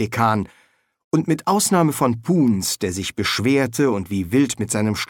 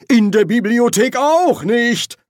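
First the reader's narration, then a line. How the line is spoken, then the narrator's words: Roar. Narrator (German): brüllte der Erzkanzler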